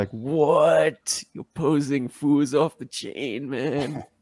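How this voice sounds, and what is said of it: Poor impression of a friend. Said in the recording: “It's a lousy Cujo impersonation.”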